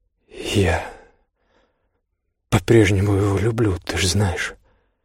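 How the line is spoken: Quiet. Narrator (Russian): тихо сказала Биргит

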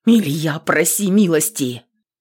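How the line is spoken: Miserable father's whisper. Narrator (Russian): вновь шептал несчастный отец

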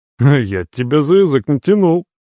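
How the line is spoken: Snorting. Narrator (Russian): хмыкнул Эмир

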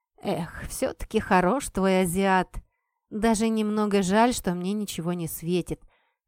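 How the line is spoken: Sigh. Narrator (Russian): вздохнула Кэт

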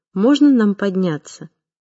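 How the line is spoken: Calm. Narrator (Russian): Фуат говорил спокойно

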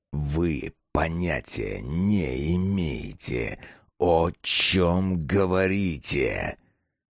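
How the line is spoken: Slow, deliberate. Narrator (Russian): Медленно и раздельно произнес Китин

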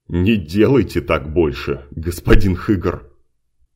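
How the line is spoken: Uncontrollable laughter. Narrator (Russian): Димка не мог остановиться, он продолжал хохотать

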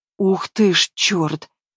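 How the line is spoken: Broken hoarse whisper. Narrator (Russian): Слышу его прерывистый, сбивчивый, сиплый шепот

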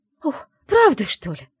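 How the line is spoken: Joyful woman. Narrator (Russian): радостно всплеснула руками женщина

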